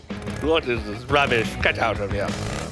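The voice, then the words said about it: Put-on English accent. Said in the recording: “I say give it an English accent.”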